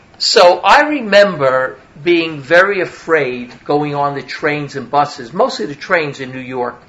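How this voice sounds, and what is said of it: Brooklyn New York accent. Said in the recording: “I'm a New Yorker. I don't have to tell you that. It's just the accent, right? From Brooklyn, actually. You got the Brooklyn accent, right?”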